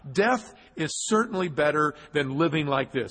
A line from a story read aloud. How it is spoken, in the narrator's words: he exclaimed